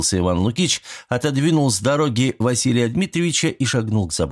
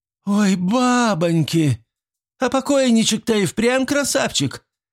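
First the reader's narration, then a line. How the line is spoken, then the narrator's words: Exclamation. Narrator (Russian): воскликнул все тот же голос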